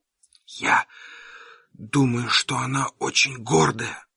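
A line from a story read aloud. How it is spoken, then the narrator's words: Whisper. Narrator (Russian): прошептал я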